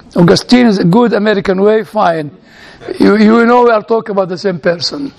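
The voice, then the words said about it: Speaks with own foreign accent. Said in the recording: “I'm always afraid of my accent”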